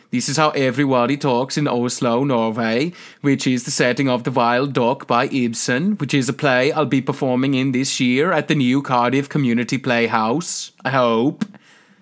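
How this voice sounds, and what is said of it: Unplaceable Scandinavian accent. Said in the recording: “still doing his unplaceable Scandinavian accent.”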